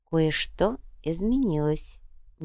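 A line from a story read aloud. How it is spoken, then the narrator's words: Soft. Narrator (Russian): мягко произнесла королева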